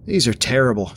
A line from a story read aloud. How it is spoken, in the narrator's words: Jonah said at last, choking down the last of his bar